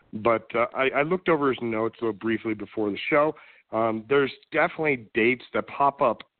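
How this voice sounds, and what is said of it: Sick, rough-sounding voice. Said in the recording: “apologize for my voice. I'm very severely under the weather”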